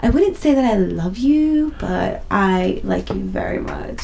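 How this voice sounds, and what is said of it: Weird English accent imitation. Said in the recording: “And it's like weird English accent.”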